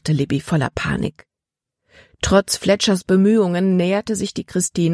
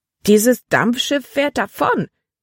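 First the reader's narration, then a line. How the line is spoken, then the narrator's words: Crying out. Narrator (German): schrie Libby auf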